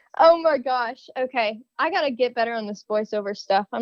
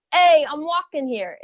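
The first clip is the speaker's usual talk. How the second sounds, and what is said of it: Weak put-on Brooklyn accent. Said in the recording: “Give me your best Brooklyn accent. ... Is that considered Brooklyn? ... I'm not very good at this.”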